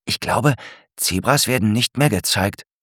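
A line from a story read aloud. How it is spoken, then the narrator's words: Whispering. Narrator (German): flüstert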